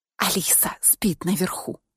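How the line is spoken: Whisper. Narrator (Russian): прошептала я

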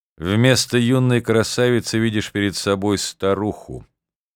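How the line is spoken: Clear, calm, smiling. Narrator (Russian): закончила Акта своим ясным голосом, спокойно улыбаясь

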